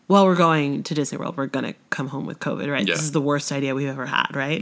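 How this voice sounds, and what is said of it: Congested, nasal voice. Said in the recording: “I am congested and still coughing ... I sound so nasally”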